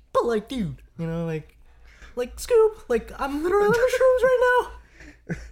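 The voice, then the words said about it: Stoned Shaggy cartoon voice impression. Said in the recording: “impersonation of Shaggy on Shrooms ... Dude, talking to Scooby Doo ... this guy started to sound like Mickey Mouse”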